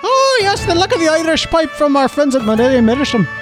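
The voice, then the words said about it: Put-on Irish accent. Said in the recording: “the best Irish Missourian accent I've ever heard”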